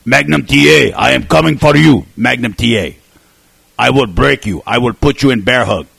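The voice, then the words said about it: Ivan Koloff impression, Russian accent. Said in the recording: “a hint of French-Canadian in his Russian accent ... The Russian Bear, Ivan Koloff”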